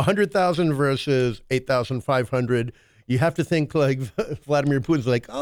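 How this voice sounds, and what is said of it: Usual voice. Nothing is said of it.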